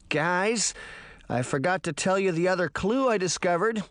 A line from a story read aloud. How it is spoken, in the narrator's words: Sabrina said nervously